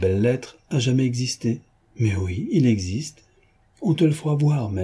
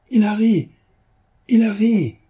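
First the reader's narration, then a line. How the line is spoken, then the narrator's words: Joyful exclamation. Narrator (French): s'écria Lupin en sautant de joie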